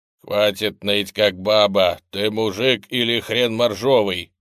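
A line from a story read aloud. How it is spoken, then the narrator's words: Barked, robotic. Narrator (Russian): рявкнул робот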